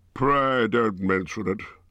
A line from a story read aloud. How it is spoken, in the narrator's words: he grunted